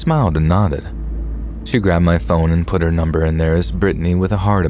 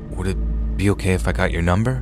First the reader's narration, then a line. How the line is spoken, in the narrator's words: said in a nervous voice